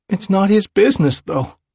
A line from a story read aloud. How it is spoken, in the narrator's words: he says desperately